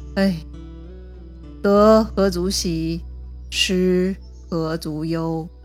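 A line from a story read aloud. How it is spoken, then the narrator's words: Sighing. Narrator (Chinese): 最后他叹了一口气，说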